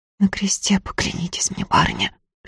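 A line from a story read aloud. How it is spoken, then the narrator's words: Whisper. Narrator (Russian): шепотом сказала Глафира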